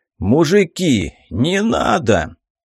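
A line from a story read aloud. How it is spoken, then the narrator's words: Hoarse pleading after rage. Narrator (Russian): взмолился охрипшим голосом пришедший в себя после вспышки бешенства шелест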